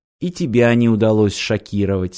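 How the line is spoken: Plain. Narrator (Russian): сказала Ирина

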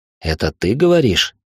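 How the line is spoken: Skeptical snort. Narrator (Russian): хмыкнул я

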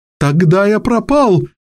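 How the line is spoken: Despairing exclamation. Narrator (Russian): воскликнул сэр Пласс

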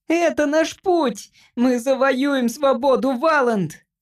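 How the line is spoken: Squeaky voice through helmet. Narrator (Russian): пищал голосок Джимпера у него в шлеме

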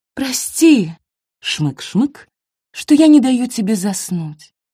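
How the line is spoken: Breathy, sniffling. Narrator (Russian): выдохнула она

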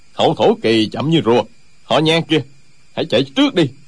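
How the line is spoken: Angry. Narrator (Vietnamese): Một trong ba người đang giao đấu tức giận nói

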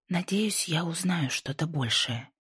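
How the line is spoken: Quiet mutter. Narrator (Russian): тихо пробормотала Пасифика

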